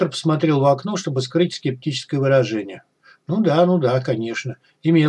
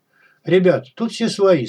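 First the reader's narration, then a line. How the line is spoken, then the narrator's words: Cheerful. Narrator (Russian): сказал Крот бодро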